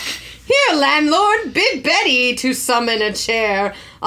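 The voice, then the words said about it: Put-on British English accent. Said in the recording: “he did adopt a sort of British English accent”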